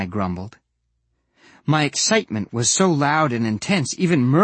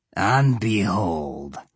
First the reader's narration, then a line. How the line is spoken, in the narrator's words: One Eye sneered